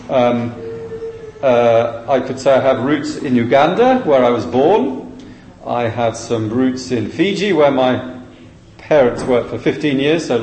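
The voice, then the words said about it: English accent. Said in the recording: “Our home base in England, which is where the accent comes from, is Shrewsbury, between Birmingham and the Welsh border.”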